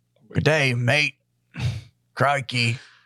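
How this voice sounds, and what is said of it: Put-on Australian accent, pirate-like. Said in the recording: “I'm putting on a fetty accent ... They're all Australians ... You sound like a pirate.”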